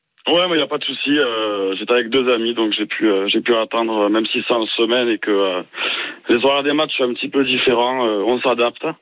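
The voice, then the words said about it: Toulouse regional French accent. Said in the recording (French): “Ton accent donc, te trahit. Tu étais au stade à Toulouse.”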